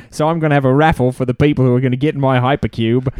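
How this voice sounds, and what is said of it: Imitated voice with Australian-sounding accent. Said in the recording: “Is he Australian? ... that sounded Australian.”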